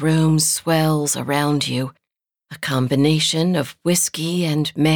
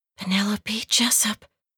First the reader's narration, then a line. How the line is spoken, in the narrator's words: you whisper